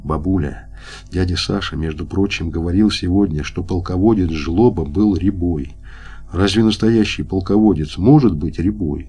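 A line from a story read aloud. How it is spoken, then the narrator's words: Eager whisper in ear. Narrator (Russian): жарко зашептал ей на ухо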